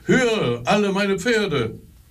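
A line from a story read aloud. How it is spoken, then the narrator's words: Delighted call. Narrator (German): er war so vergnügt, dass er ... rief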